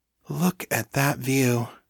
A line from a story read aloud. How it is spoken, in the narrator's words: Danni breathed